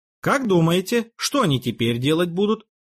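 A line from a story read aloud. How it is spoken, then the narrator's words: Plain. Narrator (Russian): спросил Петр Дмитриевич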